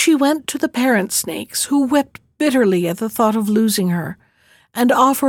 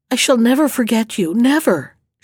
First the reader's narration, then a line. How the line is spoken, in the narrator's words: said in a broken voice